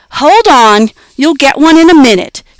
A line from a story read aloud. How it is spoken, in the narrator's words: said Jessie sharply